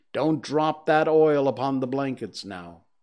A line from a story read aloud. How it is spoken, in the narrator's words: returned the woman coldly